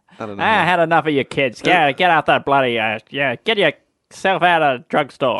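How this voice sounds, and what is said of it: Put-on sassy Boston accent. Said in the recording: “a sort of a sassy Boston accent”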